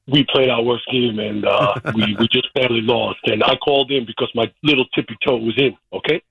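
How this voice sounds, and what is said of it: Imitates another person's voice. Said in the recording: “that's my impression. Not very good.”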